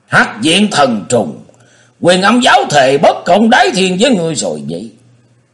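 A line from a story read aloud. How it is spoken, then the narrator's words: Booming shout. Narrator (Vietnamese): hét lừng lững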